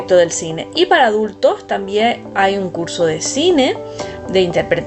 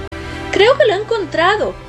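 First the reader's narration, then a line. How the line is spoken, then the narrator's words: Excited boyish shout. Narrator (Spanish): grita el chico, entusiasmado después de varias horas buscando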